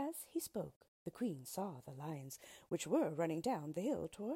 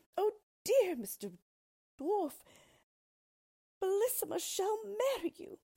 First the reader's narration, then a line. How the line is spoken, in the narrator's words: At this dreadful sight, the poor queen, who was trembling like a dove when it sees a hawk, cried out as loud as she could